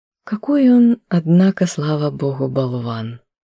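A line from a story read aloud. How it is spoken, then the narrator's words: Relieved sigh. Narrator (Russian): облегченно вздохнула Наташа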